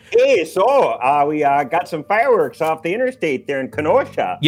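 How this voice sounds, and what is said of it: Put-on northern Midwestern accent. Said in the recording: “except it was with a northern accent. I don't know why I always go to southern accent. It was more like,”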